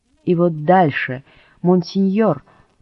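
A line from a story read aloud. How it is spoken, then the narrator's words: Pleading cry. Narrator (Russian): вскричал Пьер необиженным, но умоляющим голосом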